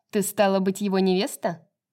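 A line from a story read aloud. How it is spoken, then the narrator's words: Cold, indifferent question. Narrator (Russian): Все так же холодно и равнодушно спросила она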